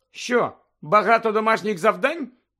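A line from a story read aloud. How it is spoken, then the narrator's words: Cheerful question. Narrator (Ukrainian): весело поцікавилася Герміона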